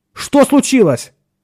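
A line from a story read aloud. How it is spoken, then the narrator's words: Near shout. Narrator (Russian): почти крикнул Ширин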